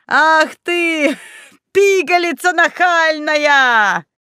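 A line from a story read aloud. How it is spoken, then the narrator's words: Admiring roaring laughter. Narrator (Russian): С восхищением захохотал Снеговей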